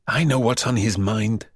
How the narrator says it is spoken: Harry whispered

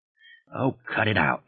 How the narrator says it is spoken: he muttered

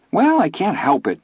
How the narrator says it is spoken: Vern said, his voice defensive

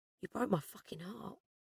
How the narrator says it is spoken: he whispered

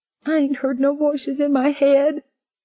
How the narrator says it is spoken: Becca moaned

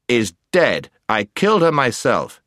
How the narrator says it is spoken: said the prince sternly

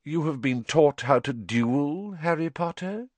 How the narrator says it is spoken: said Voldemort softly

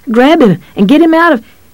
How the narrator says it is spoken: Audrey screamed

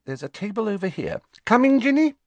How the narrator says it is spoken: Hermione gave a tinkling laugh and said

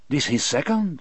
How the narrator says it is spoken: Delacroix said, looking a little nervously

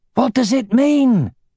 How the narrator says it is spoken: shouted Baldur between sword strokes

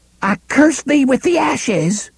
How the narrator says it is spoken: Cordelia cried

